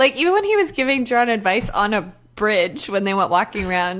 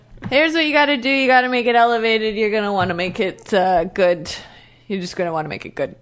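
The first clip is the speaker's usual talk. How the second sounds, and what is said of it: Imitates another person's checked-out tone. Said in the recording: “Everything about Joe's body language and tone this episode, it's like he is checked out ... I guess this isn't a good impression to do for an audio format”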